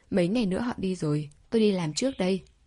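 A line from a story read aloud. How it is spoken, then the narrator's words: Smiling. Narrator (Vietnamese): Đường Hinh mỉm cười nói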